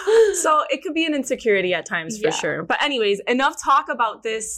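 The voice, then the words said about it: Miami accent. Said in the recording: “my Miami accent”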